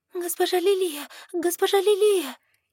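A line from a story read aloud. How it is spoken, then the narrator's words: Frightened babbling. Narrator (Russian): Испуганно залепетала она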